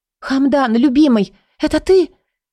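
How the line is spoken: Crying out. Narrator (Russian): Вскрикнула я

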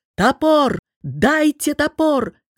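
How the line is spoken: Shouted. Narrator (Russian): крикнул он

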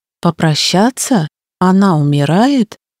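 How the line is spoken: Strained calm. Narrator (Russian): он произнес спокойно, насколько это было в его силах

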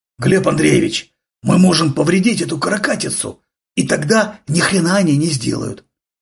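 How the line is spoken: Excited whisper. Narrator (Russian): Возбужденно шептал Дениска

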